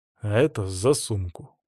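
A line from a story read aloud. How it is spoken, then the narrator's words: Mutter. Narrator (Russian): буркнул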